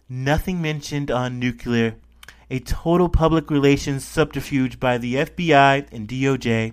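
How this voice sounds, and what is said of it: Bad imitation of another person's voice. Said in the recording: “bad Trump impression”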